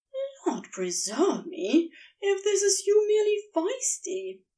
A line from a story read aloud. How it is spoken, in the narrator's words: Aziraphale muttered